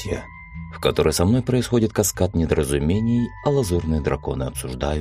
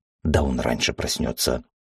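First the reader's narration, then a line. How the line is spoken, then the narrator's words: Confident whisper. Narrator (Russian): уверенно прошептал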